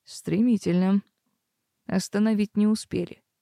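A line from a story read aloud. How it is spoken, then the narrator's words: Wry snort. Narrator (Russian): хмыкнул жених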